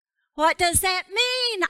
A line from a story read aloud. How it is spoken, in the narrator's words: I called out